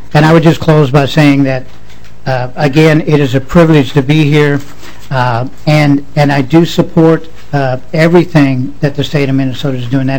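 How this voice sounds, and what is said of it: Slight southern accent. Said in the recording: “a little hint of a little further southern accent in my voice”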